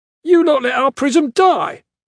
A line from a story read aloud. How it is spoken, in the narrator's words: the guard shouted